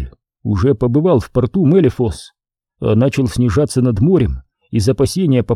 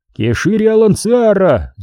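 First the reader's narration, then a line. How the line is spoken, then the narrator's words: Shouted. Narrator (Russian): закричал он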